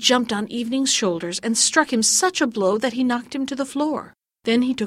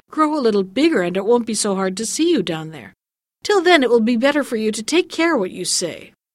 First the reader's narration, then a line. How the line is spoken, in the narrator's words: Evening laughed all the more and said